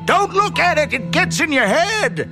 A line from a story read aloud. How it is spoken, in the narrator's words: Ham yelled at me